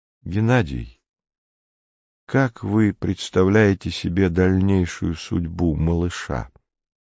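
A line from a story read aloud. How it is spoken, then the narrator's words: Sudden very quiet question. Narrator (Russian): Горбовский вдруг очень тихо спросил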